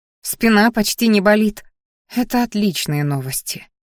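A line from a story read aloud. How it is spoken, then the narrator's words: Sighing. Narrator (Russian): вздохнула женщина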